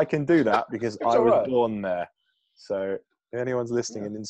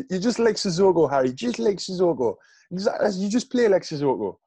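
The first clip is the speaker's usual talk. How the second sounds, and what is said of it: Geordie accent with a lisp. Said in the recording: “Jordy guy with a lisp ... That's my Jordy impression.”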